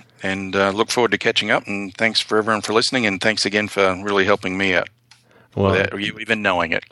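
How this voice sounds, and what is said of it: Australian accent. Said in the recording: “from Wizard of Ads Australia, if you didn't catch that from the accent.”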